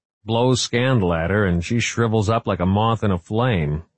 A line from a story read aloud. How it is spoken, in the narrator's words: he chuckled